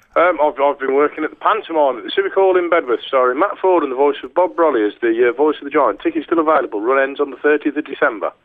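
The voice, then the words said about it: Congested voice with a cold. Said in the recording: “I've got a bit of a cold and a bit of a sniffle”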